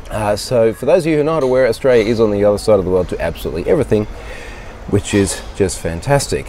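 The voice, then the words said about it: Congested voice from a cold. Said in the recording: “as you can probably hear, I've got a little bit of a cold”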